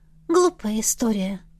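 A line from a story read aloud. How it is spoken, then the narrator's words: Sighing. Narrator (Russian): Настя вздохнула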